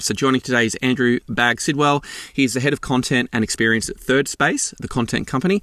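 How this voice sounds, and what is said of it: Slightly tired voice. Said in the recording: “I'm a little under the weather... My voice is a little tired”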